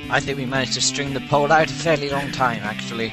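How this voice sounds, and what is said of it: Put-on farmer voice, vaguely Irish. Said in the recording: “you just sounded like some farmer or something ... It sounds sort of Irish, what you said.”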